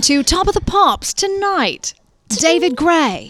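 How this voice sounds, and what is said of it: Put-on British accent. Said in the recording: “my British accent”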